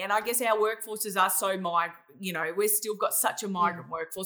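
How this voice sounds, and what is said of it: Australian accent. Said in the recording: “I'm really an Australian, as you could probably hear by my voice”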